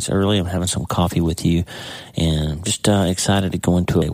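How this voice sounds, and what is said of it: Tired voice, cracking and clicking. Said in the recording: “my voice is, I guess, just tired, but I'm having a lot of trouble with my voice kind of cracking and clicking”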